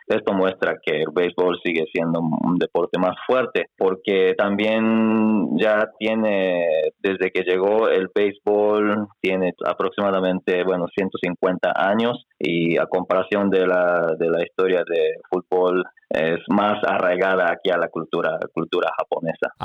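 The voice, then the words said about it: Slight Mexican accent in Spanish. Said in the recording (Spanish): “habla español perfectamente, con un ligero acento mexicano ... habla un español impecable”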